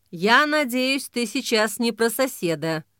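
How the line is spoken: Grim joke. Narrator (Russian): мрачно пошутила Ксения

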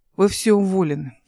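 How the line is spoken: Menacing tone. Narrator (Russian): сказал Олег грозным тоном

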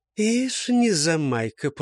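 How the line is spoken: Purring, after a pause. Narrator (Russian): промурлыкал он, погодя

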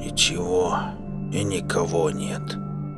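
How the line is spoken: Quiet. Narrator (Russian): добавил тихо Пона

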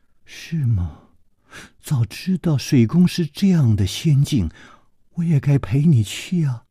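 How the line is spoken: Soft sigh. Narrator (Chinese): 李红秀轻轻地叹了一口气说

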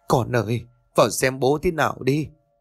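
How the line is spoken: Wailing, tearful plea. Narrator (Vietnamese): Bà lúc này khóc lóc ỉ ôi

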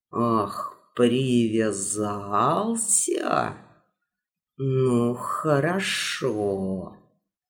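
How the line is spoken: Muttering. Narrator (Russian): Пробормотал ковер

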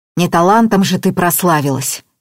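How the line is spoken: Scoffing snort. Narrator (Russian): фыркнул Слава

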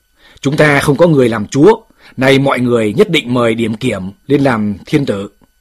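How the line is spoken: Stern loud shout. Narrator (Vietnamese): Một viên tướng nghiêm giọng quát lớn

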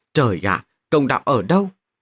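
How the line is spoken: Despairing loud laughter. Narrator (Vietnamese): Diệp Đạc tuyệt vọng, cười to mấy tiếng nói

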